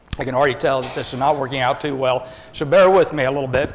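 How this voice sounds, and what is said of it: Strained, failing voice. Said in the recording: “I'm going to be losing my voice here”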